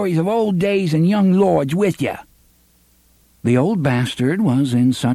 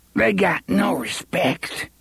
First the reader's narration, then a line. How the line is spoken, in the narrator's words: the old bastard said thickly